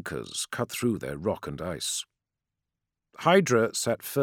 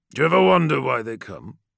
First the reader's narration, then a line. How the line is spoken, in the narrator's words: Boreas grunted